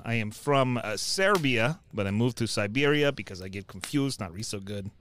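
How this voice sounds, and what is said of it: Funny put-on foreign accent. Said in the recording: “my accent's a little funny”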